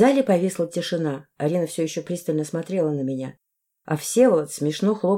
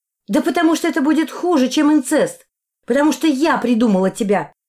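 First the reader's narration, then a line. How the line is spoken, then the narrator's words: Shouting. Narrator (Russian): крикнула я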